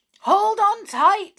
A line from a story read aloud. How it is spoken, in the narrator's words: shouted